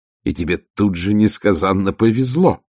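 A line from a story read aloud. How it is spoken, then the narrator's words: Growl. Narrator (Russian): прорычала Ангва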